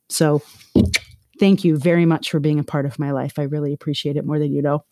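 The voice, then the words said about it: Teary, emotional voice. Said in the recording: “I'm getting all teary.”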